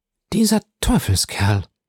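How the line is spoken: Muttered, head shaking. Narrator (German): murmelte den Kopf schüttelnd

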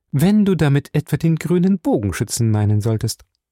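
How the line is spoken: Calm. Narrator (German): sagte ruhig

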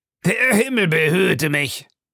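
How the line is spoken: Called out. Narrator (German): rief Stewart

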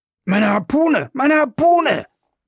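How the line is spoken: Shouting. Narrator (German): schrie Ned Land

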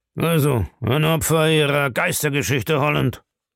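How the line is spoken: Grumbling. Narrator (German): brummte

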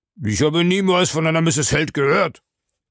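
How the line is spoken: Loud call. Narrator (German): rief Smith laut

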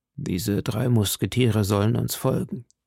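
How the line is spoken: Quiet voice. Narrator (German): sprach er mit leiser Stimme

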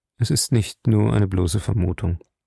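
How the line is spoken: Calm. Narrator (German): sagte ruhig

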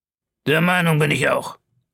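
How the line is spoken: Cold reply. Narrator (German): erwiderte Ned Land kalt

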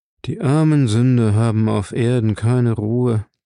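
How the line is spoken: Sighing. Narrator (German): seufzte Elk

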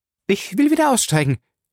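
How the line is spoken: Called out. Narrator (German): rief

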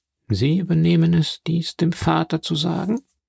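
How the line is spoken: Called out. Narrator (German): rief Danglars

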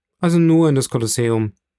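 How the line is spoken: Calling out. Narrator (German): rief Franz

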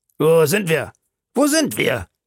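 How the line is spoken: Calling out. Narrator (German): rief der Kanadier

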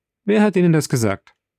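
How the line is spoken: Called out. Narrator (German): rief der Graf

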